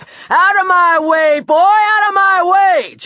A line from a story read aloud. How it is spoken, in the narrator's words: bellowed